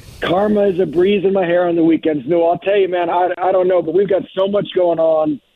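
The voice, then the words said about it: Hoarse, worn-out voice. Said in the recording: “I've lost my voice. ... and that's why you lost your voice.”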